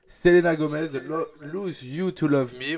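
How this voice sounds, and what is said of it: Exaggerated English accent. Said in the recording (French): “avec mon fabuleux accent anglais”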